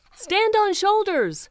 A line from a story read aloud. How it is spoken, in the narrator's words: someone shouted